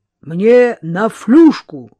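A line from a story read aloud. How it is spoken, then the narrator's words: Loud bark, young man. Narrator (Russian): гаркнул парень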